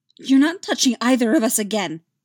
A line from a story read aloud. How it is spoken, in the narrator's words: she snapped back